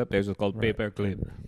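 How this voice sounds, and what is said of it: Bad Russian accent, sounds German. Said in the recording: “Is that a bad Russian accent? I think it was. ... it sounded German ... I'm real bad with accents.”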